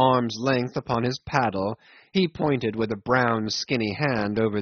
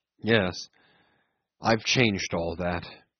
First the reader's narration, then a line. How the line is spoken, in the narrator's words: he muttered in a gloomy voice